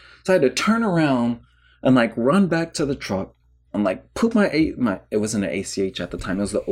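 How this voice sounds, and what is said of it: Usual voice. Nothing is said of it.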